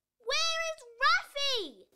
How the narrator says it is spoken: shouted

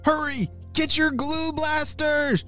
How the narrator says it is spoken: shouted Nicholas

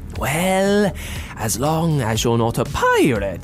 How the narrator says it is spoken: giggled Calliope before happily swishing back

